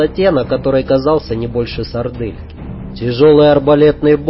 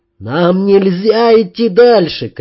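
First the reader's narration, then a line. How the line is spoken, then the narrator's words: Shouting. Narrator (Russian): кричал Ян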